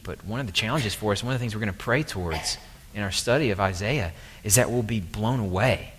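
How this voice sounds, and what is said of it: Southern American accent. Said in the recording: “Sorry for my southern accent if that screwed up that word.”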